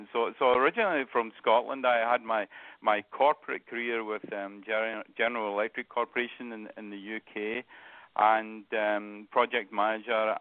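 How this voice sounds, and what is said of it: Scottish accent. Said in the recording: “you can probably tell. ... I still have that Scottish accent.”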